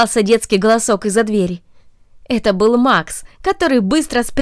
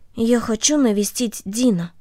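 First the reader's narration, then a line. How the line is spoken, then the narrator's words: Quiet. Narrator (Russian): Корнелли тихо сказала ей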